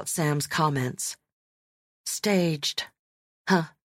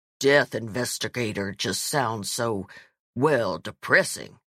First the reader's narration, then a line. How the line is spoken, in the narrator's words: her voice dropped two octaves